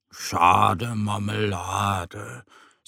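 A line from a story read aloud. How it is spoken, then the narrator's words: Sighing. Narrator (German): seufzt Mo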